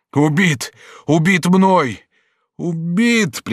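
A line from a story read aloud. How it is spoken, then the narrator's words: Sobbing. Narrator (Russian): прибавил он, зарыдав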